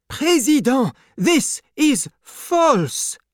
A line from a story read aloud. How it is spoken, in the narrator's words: cried